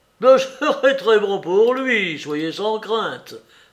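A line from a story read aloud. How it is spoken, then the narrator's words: Laughing. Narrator (French): dit-il en riant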